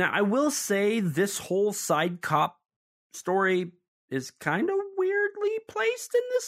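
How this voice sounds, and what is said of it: Usual voice. Nothing is said of it.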